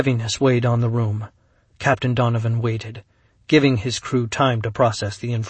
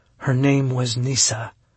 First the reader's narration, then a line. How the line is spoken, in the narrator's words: Kat said softly